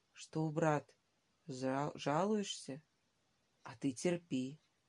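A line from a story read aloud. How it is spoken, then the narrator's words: Affectionate whisper. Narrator (Russian): Ладышкин шептал ласково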